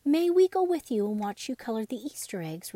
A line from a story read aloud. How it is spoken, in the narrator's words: Raggedy Andy begged